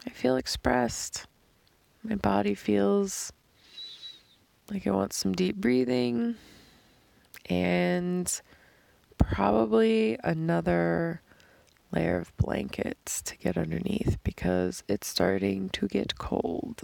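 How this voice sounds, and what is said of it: Dry, strained voice. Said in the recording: “It's so dry. You can hear that in my voice, I'm sure. Also, a voice from like screaming in the car on the way here. ... Crying.”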